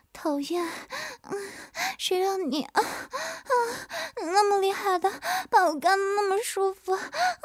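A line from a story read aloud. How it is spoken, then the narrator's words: Feigned breathless panting. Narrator (Chinese): 曲颖 假装气喘吁吁的道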